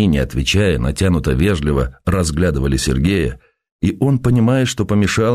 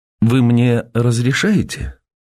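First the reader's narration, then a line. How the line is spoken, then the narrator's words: Surprised question. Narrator (Russian): спросила удивленным голосом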